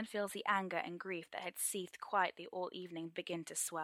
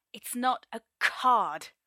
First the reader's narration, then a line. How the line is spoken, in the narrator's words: Merlin hisses, trying valiantly to keep his voice down